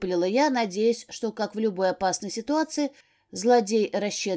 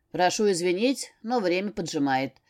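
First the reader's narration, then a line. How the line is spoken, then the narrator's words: Snorting necromancer. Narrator (Russian): хмыкнул некромант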